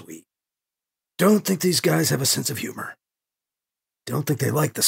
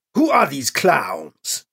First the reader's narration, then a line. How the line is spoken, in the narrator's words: He barks